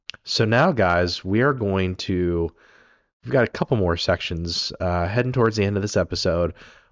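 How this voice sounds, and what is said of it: Raspy, rough voice. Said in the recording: “my voice is raspy.”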